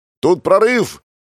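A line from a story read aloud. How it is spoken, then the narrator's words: Shout through cupped hands. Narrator (Russian): крикнул, сложив ладони рупором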